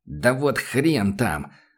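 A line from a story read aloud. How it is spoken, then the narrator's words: Angry. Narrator (Russian): зло сказал ариец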